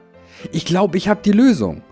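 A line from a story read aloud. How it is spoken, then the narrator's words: Cheerful call while dancing. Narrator (German): rief er und tanzte fröhlich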